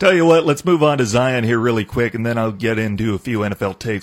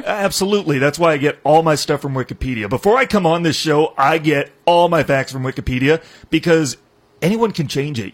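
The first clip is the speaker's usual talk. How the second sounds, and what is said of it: Sarcastic delivery. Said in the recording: “I was sarcastic.”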